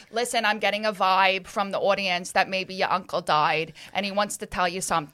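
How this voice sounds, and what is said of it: Long Island Medium accent impression. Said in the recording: “she's a Long Island medium ... I'm going to do the accent, but it is going to come out English now because I've been doing English so much. She's like, talks like this”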